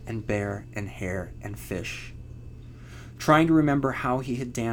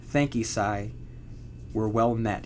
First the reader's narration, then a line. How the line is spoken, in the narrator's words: had said